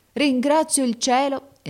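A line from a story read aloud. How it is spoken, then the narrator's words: Exclaiming. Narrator (Italian): esclamò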